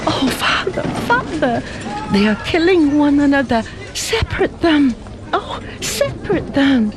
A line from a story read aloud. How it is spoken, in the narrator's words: pleaded Fing Fan